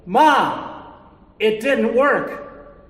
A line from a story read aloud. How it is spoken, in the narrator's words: Christine immediately yelled